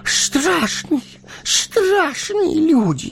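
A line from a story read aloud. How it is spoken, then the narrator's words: Hoarse rasp. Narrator (Russian): захрипел он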